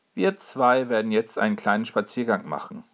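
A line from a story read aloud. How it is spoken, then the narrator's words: Plain. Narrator (German): sagt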